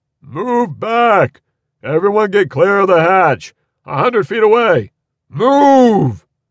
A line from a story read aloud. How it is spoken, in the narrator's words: He cupped his hands around his mouth and bellowed